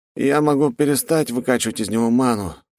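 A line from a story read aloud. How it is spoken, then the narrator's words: Fighter mumbling. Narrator (Russian): промямлил боец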